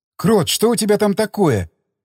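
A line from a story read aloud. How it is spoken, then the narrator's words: Exclamation. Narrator (Russian): воскликнула она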